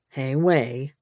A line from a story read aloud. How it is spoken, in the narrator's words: Knox said, his voice a little softer